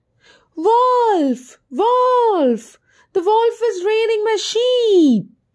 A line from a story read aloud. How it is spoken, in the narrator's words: the boy mischievously shouted again